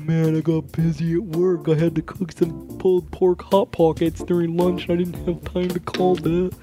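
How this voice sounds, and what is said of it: Imitates another person's voice. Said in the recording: “my impression of Matthew ... It's a pretty good impression.”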